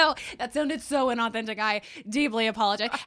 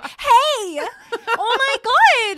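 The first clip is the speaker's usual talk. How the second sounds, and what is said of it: High-pitched head voice. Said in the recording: “I go like up here! ... I lie up in my head voice. ... When I'm lying, I'm living up here.”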